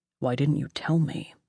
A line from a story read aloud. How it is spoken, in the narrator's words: He muttered